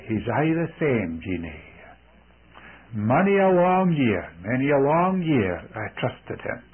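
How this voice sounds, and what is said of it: Scottish accent. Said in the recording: “exclaimed in her Scottish accent”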